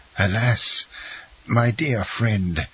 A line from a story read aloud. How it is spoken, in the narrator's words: said Faria, in a resigned tone